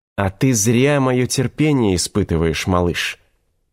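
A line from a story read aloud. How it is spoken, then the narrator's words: Hissing. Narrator (Russian): прошипел Ланиста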